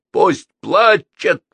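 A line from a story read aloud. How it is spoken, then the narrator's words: Barked, fierce. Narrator (Russian): рявкнул Чаби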